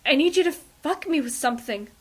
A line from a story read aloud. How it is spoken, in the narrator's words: Ray, near coming, gasps